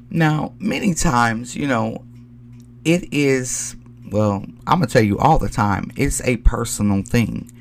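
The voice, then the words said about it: Voice sounds a little sick. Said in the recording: “please forgive my voice. I'm a little under the weather”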